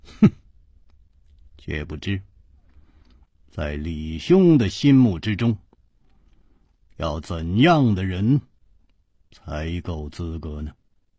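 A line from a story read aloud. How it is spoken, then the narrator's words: Calm, smiling. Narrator (Chinese): 楚留香声色不动，微笑着说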